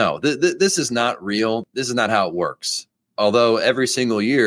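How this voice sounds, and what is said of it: Usual voice. Nothing is said of it.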